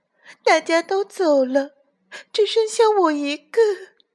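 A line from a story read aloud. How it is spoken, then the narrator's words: Crying. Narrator (Chinese): 小鸟哭着说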